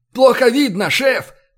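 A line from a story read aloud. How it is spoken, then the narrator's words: Strained wheeze under g-force. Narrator (Russian): прохрипел раздавленный перегрузкой Кристоф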